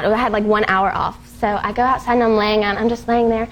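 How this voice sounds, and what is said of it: Light Southern US accent. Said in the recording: “You have the cutest little accent ... all of a sudden it comes out a little more southern like that”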